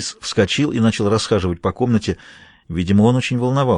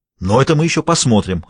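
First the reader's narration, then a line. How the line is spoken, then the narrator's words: Bark. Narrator (Russian): рявкнул он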